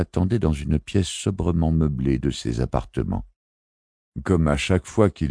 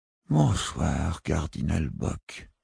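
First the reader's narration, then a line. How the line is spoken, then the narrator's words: Weary murmur. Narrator (French): murmura-t-il d'une voix lasse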